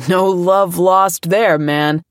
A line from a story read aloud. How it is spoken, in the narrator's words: someone yelling